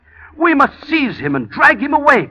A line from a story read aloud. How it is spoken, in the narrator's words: cried the abbot